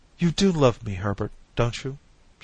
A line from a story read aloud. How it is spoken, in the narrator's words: she said, her voice suddenly breaking